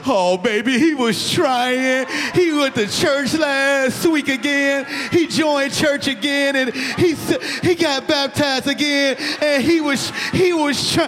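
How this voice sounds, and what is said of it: Crying old grandmother voice. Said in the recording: “that crying ass grandma voice”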